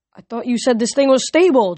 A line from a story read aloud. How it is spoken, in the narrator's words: Jason shouted over the wind